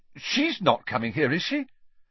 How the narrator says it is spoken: he blurted out

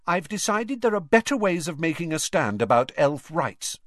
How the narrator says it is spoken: said Hermione haughtily

